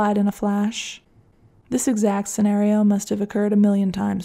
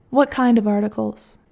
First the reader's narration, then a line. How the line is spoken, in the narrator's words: Every question she asked was delivered in a value-neutral tone that nevertheless left the impression you were being judged harshly